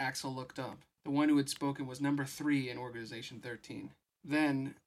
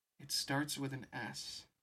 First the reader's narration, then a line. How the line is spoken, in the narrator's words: Kyrie murmured